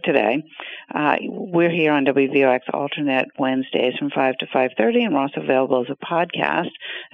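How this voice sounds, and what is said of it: Hoarse, croaky throat. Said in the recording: “I have a little bit of a frog in my throat”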